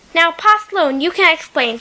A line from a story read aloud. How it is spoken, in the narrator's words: she said